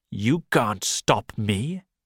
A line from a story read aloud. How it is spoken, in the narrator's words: answered angrily